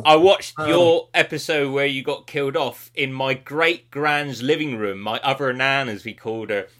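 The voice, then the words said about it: West Country English accent. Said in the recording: “a lovely twang in your voice. So you're a bit West Country there.”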